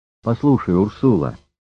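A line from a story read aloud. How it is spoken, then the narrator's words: Plain. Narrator (Russian): сказал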